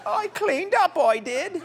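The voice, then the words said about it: Imitates another person's voice. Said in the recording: “That's my Queen Elizabeth impression.”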